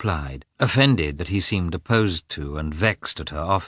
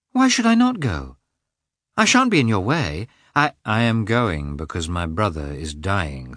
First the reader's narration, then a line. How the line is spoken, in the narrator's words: said Lievin